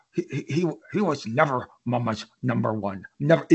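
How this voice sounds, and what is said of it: Contemptuous snarling imitation of another person. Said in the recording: “this is going to be a terrible Todd. Cause my voice is trash. ... It's always said with a bit of contempt. Todd gets a little snarl in there.”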